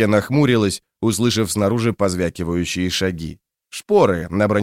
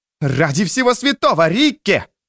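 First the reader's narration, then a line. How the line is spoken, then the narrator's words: Screaming. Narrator (Russian): завопила Финри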